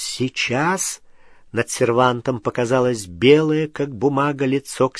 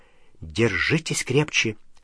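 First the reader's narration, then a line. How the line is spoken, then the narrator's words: Whisper. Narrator (Russian): Она прошептала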